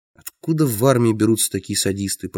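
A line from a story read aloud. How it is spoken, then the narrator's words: Mutter. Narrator (Russian): пробормотал я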